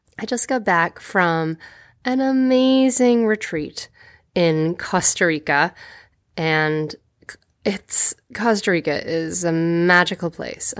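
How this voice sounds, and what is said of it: Deeper voice, sounds like a cold. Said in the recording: “you might be able to hear that my voice is kind of deeper. I'm working with this cold ... I'm also a little jet lagged”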